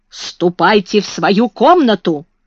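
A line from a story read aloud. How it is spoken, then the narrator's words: Shout. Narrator (Russian): крикнула она Бекке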